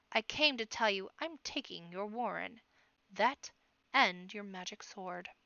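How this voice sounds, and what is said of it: Deep, cold menacing character voice. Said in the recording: “the deep voice echoed inside the iron shell. A cold, iron killer's voice.”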